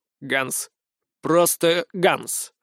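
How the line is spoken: Heavily accented, clipped. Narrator (Russian): с мощным акцентом отчеканил Иоганн Рокфеллер

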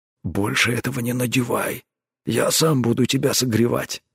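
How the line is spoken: Muttered gruffly. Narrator (Russian): буркнул он

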